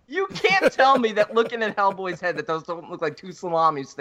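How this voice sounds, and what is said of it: Usual voice. Nothing is said of it.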